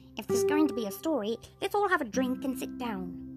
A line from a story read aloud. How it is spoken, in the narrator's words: barked the dogs